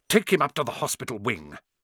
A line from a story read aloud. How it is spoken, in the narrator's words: Snape spat at Seamus